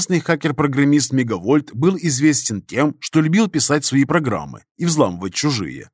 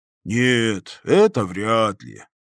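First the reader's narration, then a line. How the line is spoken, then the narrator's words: Drawled. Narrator (Russian): протянул бармен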